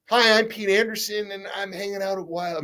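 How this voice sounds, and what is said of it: Imitates another person's voice. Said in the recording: “my Pete Anderson imitation.”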